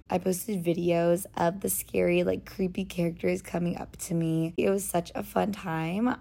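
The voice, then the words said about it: Raspy voice. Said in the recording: “my voice is kind of raspy”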